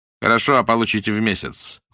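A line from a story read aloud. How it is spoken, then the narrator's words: Cold confirmation. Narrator (Russian): холодно подтвердил Сологдин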